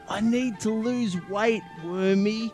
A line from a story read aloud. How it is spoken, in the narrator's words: wheezed